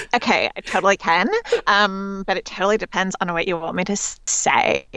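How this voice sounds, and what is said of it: Valley Girl voice impression. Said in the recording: “your Valley Girl impression ... It's just fantastic.”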